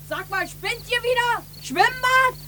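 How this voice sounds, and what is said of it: Shouting loudly. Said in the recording (German): “schrei nicht so!”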